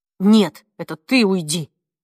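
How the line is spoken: Snapping. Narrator (Russian): огрызнулся он

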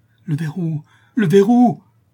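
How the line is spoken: Exclaimed. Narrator (French): s'écria Jacques Ferrand

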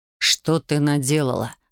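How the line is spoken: Bitter hiss. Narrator (Russian): с горечью прошипел Александр

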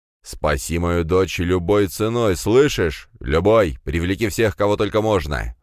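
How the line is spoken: Growling. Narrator (Russian): зарычал император

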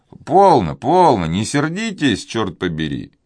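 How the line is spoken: Conciliatory. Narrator (Russian): примирительным тоном произнес Алане

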